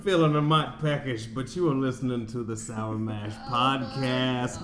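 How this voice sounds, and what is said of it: Put-on Southern drawl. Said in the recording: “my old southern drawl”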